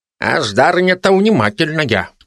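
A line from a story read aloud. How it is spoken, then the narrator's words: Amused snort. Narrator (Russian): хмыкнул Ясь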